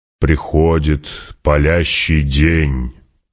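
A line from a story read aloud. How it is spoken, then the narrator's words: Solemn proclamation. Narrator (Russian): провозгласил Стилгар уже совершенно торжественным тоном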